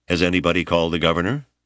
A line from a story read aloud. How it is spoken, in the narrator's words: Janders asked